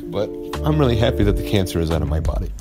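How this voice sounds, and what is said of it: Choked up, close to tears. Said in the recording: “I'm going to try to get through this without crying, but it's really hard not to ... all choked up”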